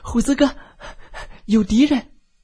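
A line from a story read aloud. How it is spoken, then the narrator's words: Breathless, urgent. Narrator (Chinese): 放哨的海娃气喘吁吁地跑回来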